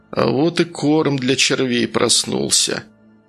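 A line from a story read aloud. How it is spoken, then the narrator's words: Relieved mutter, sorcerer. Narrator (Russian): с облегчением пробормотал колдун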